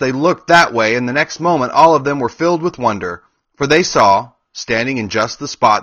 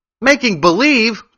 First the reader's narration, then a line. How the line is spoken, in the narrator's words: cried Dorothy